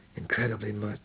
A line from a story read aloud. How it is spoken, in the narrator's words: murmured